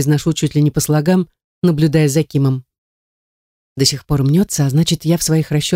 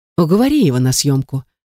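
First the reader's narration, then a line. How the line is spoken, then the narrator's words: Sad sigh. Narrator (Russian): печально вздыхает Ким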